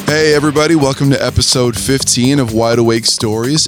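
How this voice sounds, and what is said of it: Raspy, hoarse voice. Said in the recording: “my very raspy, hoarse voice”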